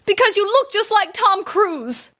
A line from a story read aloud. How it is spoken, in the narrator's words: Without thinking, she shouted back